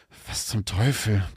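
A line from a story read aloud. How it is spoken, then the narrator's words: Murmur. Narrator (German): murmelte er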